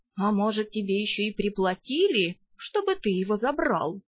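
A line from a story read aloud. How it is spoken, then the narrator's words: Insinuating question. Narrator (Russian): вкрадчиво поинтересовался травник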